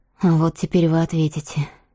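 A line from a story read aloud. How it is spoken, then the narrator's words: Surprisingly calm. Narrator (Russian): сказала Тория на удивление спокойно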